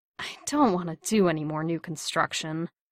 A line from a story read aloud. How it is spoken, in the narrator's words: Steve groaned